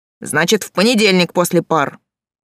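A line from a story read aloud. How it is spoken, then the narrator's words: Bark. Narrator (Russian): рявкнул Олег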